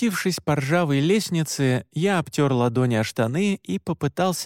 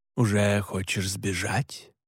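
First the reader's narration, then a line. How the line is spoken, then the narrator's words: Mocking question. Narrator (Russian): насмешливо спросил Александр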